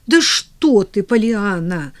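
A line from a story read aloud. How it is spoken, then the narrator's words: Exclaiming. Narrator (Russian): воскликнула миссис Кэррю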